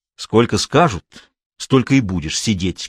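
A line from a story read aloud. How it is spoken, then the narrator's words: Menacing. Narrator (Russian): грозно ответил Белов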